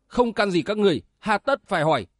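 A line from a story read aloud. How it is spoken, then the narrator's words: Angry shout. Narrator (Vietnamese): Giang Thu Lăng vụt nổi giận hét to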